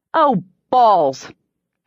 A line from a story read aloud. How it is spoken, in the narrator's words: I scoffed